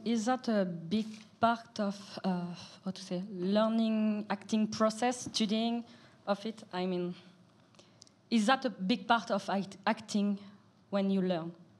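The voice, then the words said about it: Non-native English accent. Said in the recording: “Sorry, my accent.”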